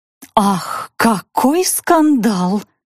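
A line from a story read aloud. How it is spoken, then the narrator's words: Whisper. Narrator (Russian): прошептала Натали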